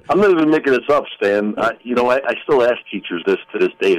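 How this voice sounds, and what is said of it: Tough guy accent, Sopranos-like. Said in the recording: “the tough guy accent. Sounds like you should have been playing on The Sopranos”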